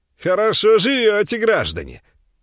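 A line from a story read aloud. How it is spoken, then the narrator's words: Loud and cheerful. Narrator (Russian): сказал он громко и весело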